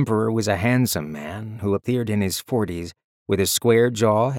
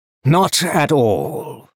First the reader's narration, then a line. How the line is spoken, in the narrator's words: Naru Huan boomed out